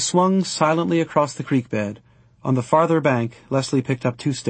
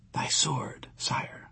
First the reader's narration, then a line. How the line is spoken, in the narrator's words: she whispered